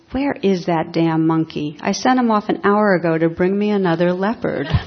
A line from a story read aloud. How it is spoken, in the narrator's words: he exclaimed